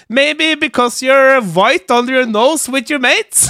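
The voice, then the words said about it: English in a thick Norwegian accent. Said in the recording (Norwegian): “på det beste norske aksent”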